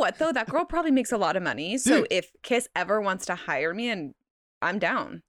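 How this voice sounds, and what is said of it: Usual voice. Nothing is said of it.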